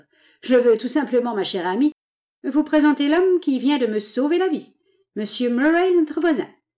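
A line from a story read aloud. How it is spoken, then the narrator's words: Mocking reply. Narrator (French): répondit Gobson d'un ton railleur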